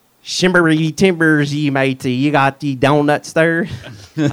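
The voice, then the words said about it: Pirate voice with southern twist. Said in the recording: “in a pirate voice ... It's got a little southern twist in it ... A little southern pirate going on there.”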